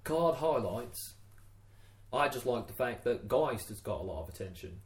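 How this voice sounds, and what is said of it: Unidentifiable put-on accent. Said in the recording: “What is this accent? ... I don't know. I was hoping you could work it out.”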